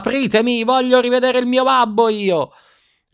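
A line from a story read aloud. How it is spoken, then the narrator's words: Screaming at the top of lungs. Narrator (Italian): urlando a squarciagola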